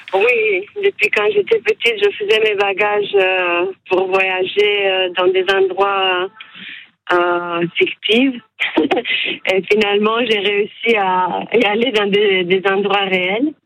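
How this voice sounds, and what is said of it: Romanian accent in French. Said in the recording (French): “j'entends un accent de votre part ... vous êtes roumaine”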